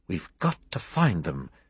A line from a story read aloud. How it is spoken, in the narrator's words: Chester whispered urgently